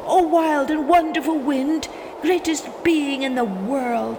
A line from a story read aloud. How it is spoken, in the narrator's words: cried